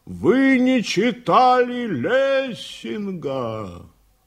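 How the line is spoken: Loud shout. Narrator (Russian): Шабалдин громко крикнул

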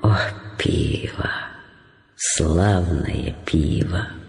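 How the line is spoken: Muttered. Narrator (Russian): пробормотала Джули

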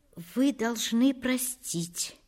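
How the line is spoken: Quiet. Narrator (Russian): промолвила она тихо

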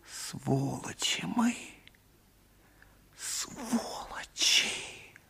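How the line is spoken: Hissed through teeth. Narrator (Russian): просвистел сквозь зубы

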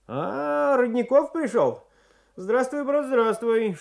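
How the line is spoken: Cheerful grin. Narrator (Russian): весело осклабился

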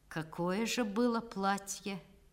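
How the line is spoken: Lazy drawling amused question. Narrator (Russian): он усмехнулся в темноте, и, лениво растягивая слова, спросил

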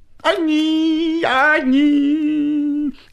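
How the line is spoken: Bleating goat-like singsong. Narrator (Russian): козлиным голосом запел длинный клечатый

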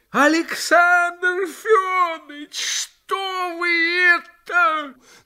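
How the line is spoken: Frenzied shout. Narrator (Russian): Как бешеный закричал Костяков

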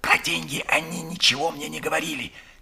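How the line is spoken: Whispered reply. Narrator (Russian): Также шепотом ответил он

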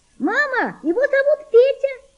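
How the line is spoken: Child's shout. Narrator (Russian): закричала девочка

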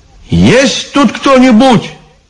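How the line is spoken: Shout. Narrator (Russian): крикнул Иван

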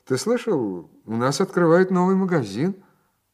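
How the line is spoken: Cheerful remark. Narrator (Russian): весело заметив

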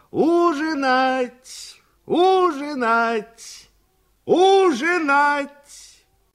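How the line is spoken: Shouting. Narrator (Russian): кричала

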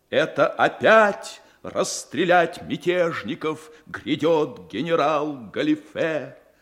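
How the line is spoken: Shrill shout. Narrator (Russian): Пронзительным голосом выкрикивает он

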